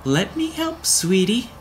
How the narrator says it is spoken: cooed, with his voice carrying a cheerful note

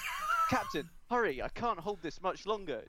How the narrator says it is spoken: Terry Jeffers shouted, seemingly worried he would not be heard over the alarms

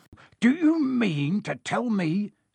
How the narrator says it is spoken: he growled

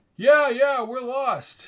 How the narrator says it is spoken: shouted Woody

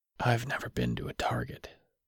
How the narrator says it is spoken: he whispered

